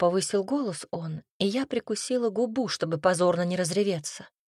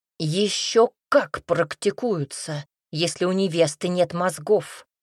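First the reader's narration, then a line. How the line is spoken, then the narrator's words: Gruff barking father. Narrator (Russian): рявкнул папенька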